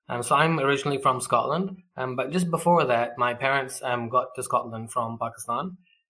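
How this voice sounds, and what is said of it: Mixed accent that shifts. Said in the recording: “my kind of weird accent that I'll flip in and out of”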